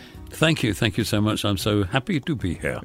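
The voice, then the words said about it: Put-on British accent. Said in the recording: “Very British accent, you noticed... I'm putting it on”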